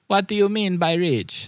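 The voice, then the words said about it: Poor put-on Jamaican accent. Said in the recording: “That's my attempt at a Rastafarian accent, a Jamaican accent. It's really bad.”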